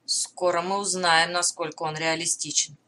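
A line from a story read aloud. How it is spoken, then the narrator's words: Muttering. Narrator (Russian): пробормотал Деврис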